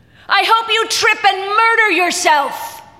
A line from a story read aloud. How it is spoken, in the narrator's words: Dot screamed